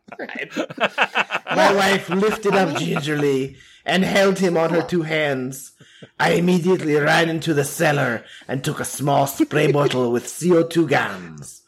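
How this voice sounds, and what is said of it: German accent. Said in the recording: “So you're from Dorf, Germany, so this is a German accent.”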